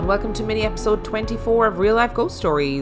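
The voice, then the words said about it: Announcer voice. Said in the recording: “doing my announcer voice”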